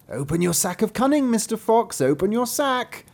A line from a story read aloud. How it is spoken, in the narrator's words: cried the cat